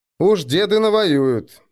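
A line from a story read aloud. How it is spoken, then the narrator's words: Skeptical snort. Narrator (Russian): хмыкнул Арнгрим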